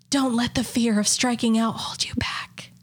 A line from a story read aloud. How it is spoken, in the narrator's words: a faint whisper